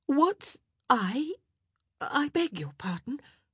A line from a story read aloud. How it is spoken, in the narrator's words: Penelope visibly started, as she stammered